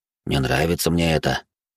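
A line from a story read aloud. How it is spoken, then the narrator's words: Quiet private murmur. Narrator (Russian): тихо произнес, так, чтобы только я это слышал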